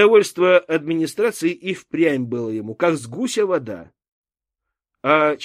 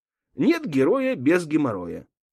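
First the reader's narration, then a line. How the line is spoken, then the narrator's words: Calm muttering. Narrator (Russian): спокойно, приговаривая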